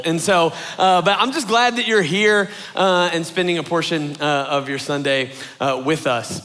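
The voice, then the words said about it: Hoarse, strained, cracking voice. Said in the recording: “my voice is going a little bit ... I've been hollering at the ball field ... if my voice cracks a little bit”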